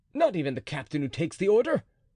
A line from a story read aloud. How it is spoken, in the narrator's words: cried D'Artagnan